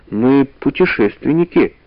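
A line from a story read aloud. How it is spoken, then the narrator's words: Timid. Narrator (Russian): робко сказала Валя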